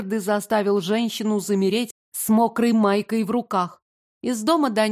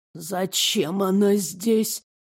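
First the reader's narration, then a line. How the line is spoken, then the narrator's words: Hoarse, very quiet old woman. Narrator (Russian): Хриплый голос старушки стал еще тише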